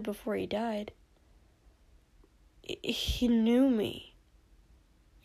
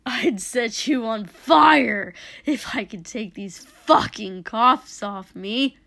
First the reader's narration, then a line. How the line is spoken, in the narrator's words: Dobby snapped